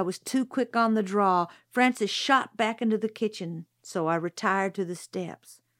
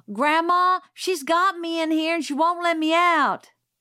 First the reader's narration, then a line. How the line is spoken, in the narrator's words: Francis yelled